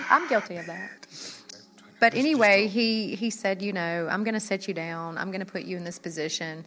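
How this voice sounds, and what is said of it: Southern US accent. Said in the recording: “my accent. It's Southern, okay? It's not country, right?”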